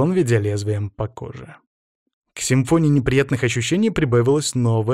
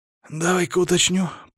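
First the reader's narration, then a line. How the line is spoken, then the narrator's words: Hoarse, on exhale. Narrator (Russian): просипел я на выдохе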